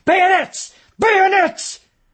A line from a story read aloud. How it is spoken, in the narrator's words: Chamberlain screamed